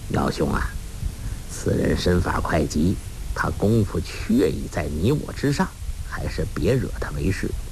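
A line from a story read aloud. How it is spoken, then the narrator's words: Whisper. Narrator (Chinese): 欧阳锋在黄药师耳边低声说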